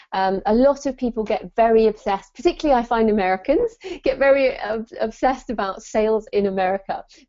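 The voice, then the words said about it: British accent. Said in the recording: “you probably tell from my accent, I'm in the UK”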